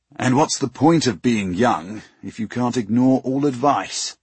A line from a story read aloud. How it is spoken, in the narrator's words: Master Hurricane grumbled